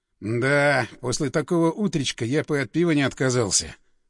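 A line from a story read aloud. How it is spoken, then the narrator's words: Grumbling. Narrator (Russian): пробурчал Андреев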